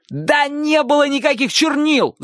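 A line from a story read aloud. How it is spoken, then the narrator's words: Shouting. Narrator (Russian): закричал Чик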